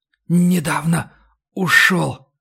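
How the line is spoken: Whisper. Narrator (Russian): прошептал вампир

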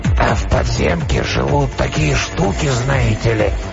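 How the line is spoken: Hoarse, trembling voice. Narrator (Russian): Голос, хриплый и дрожащий, прозвучал внезапно откуда-то сзади

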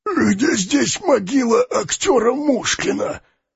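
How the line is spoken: Hoarse question. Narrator (Russian): спросил хриплым голосом

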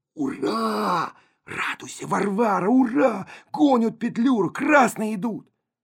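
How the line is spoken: Breathless loud stage whisper. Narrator (Russian): Колька перевел дух и крикнул суфлерским шепотом

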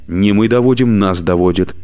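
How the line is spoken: Spoken quickly. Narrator (Russian): быстро проговорила Алена

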